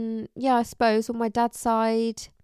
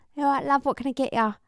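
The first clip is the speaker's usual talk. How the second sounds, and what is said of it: Put-on Cockney accent. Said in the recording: “the Cockney accent”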